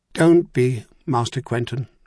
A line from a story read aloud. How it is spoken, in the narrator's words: she said firmly